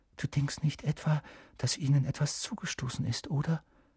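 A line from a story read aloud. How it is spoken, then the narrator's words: Whisper. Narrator (German): flüsterte Hermine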